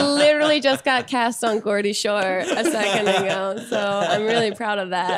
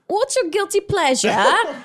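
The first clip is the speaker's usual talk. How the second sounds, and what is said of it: Put-on British accent. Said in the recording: “ask me a question with your best British accent ... Right, that's really good. Really good. ... hearing you do an English accent”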